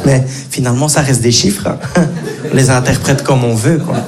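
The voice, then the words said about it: Slight Belgian French accent. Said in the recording (French): “avec son léger accent belge. Ce garçon vient de Belgique.”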